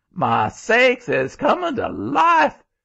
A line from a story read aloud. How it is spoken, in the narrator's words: As soon as the grandmother saw it open its mouth that way, she just gave one scream